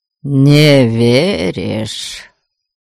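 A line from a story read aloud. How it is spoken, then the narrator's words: Drawled, more statement than question. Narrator (Russian): Скорее утвердительно, чем вопросительно протянул Абальд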